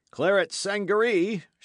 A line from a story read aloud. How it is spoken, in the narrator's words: shouts another